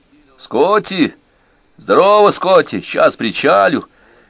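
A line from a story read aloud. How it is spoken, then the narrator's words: Muffled, dull, distant. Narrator (Russian): Голос Роя прозвучал глухо и тускло, теряясь в болотных зарослях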